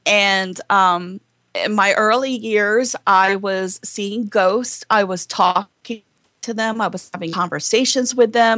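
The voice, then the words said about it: Southern Baltimore accent. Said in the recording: “people talking about my Southern accent, my Baltimore accent”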